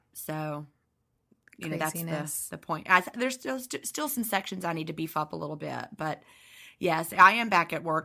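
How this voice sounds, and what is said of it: Scratchy voice. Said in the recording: “my voice is scratchy, because ... I do lots of talking.”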